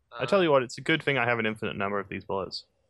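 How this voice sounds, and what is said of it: Sarcastic tone. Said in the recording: “Is that sarcasm? ... That was sarcasm, yes.”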